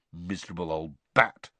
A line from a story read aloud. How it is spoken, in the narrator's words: said Ron bitterly